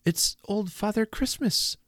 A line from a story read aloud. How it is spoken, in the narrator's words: once more we cried in the same breath